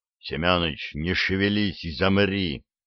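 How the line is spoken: Loud commanding whisper. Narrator (Russian): Громким шепотом приказал

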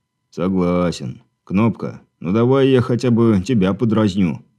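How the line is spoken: Sighing. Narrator (Russian): вздохнув Док

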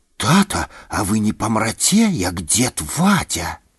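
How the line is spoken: Whispered question. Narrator (Belarusian): Антос спытаў шэптам

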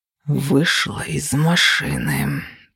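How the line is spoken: Hissed. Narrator (Russian): прошипел Феникс

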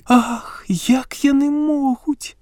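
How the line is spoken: Crying. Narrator (Belarusian): заплакала Люся

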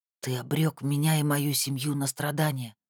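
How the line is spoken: Young man whispering. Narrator (Russian): прошептал юноша

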